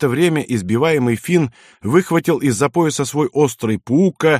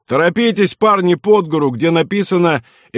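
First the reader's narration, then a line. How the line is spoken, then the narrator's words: Cheerful shout. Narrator (Russian): фельдфебель весело крикнул Нишицу и Францу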